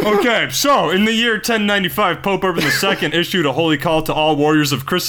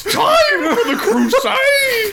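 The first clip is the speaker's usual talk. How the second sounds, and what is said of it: Exaggerated dramatic character voice. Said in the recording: “What was that voice? ... It's my crusading voice.”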